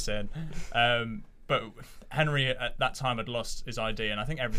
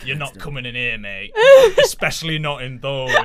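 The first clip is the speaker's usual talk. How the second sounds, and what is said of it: Tough northeastern English accent. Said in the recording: “Remarkably good northeastern accent ... I just went for a tough accent.”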